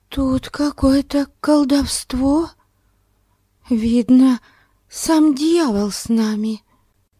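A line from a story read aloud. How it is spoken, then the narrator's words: Whisper. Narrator (Russian): Амалия прошептала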